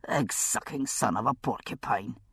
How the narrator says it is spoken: he muttered

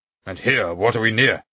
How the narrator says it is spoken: He asked, gruffly, as though glad of the objection

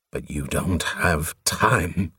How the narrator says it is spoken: Covenant groaned

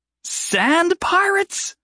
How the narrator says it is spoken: Jason exclaimed with glee, breaking into a wild laugh

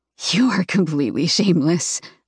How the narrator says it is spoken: I murmur with a small smile

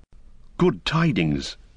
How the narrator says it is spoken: cried Aymer

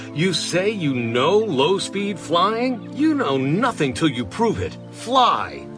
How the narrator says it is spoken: he shouted across the sky

